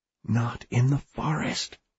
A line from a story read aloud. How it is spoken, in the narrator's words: he said quietly